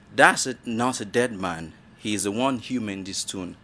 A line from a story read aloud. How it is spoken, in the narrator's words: Ikenna, my oldest brother, said calmly